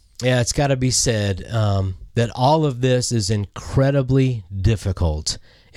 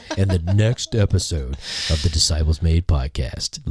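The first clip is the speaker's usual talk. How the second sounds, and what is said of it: Announcer-style radio voice. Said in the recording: “in my best like radio voice.”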